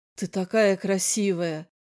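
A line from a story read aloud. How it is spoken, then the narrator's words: Hoarse voice. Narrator (Russian): хрипло сказал Эндрю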